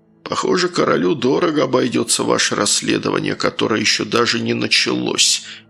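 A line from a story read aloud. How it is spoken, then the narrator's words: Grumbling mutter. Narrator (Russian): пробурчал маршал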